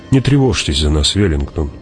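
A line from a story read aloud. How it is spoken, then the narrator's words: Soft, gentle. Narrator (Russian): мягко сказала Джессика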